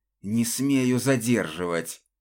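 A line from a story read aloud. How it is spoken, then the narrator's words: Hissed. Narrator (Russian): прошипел тот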